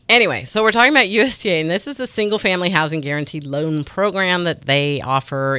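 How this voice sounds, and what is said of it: Congested, sore-throated voice. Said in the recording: “I'm having a hard time talking today between my nose is plugged and my throat feels like it's closing up on me. I have a cold. I have a sore throat. You could probably hear it in my voice.”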